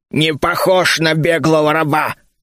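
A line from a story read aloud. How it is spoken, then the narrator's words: Orc growling. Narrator (Russian): рыкнул лысый орк справа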